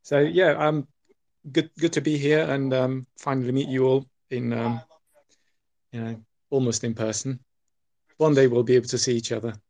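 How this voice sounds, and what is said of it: British accent. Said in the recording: “I love the accent. ... British.”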